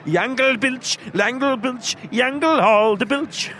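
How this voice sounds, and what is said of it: Put-on German accent. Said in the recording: “Why do you turn into like someone like Nazi officer ... to do a German impression”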